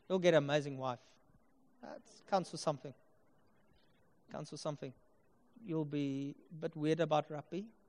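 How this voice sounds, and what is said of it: Afrikaans accent. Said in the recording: “You'll get Afrikaans accent.”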